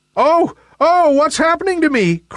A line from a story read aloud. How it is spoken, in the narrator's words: cried Nimbus in fear